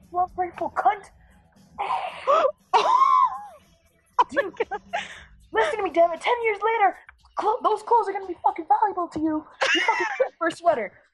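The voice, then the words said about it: Yelling. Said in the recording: “I'm yelling”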